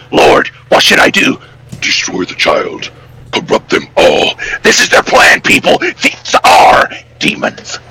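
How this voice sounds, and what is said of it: Imitates another person's voice. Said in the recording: “Was that an Alex Jones impression? ... Pretty much. Everyone says it's one of the best Alex Jones impressions ever.”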